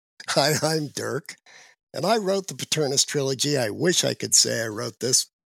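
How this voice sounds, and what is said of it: Unwell-sounding voice. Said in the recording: “Excuse my voice. I am still on the tail end of getting rid of the COVIDs.”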